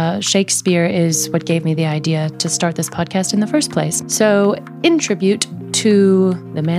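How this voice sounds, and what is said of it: Usual voice. Nothing is said of it.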